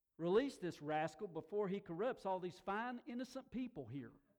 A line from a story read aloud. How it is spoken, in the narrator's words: he yelled out to the guards, the other authorities, said